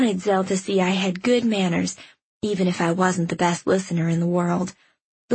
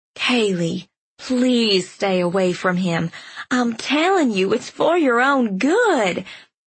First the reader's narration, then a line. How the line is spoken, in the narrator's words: Zell pleaded with me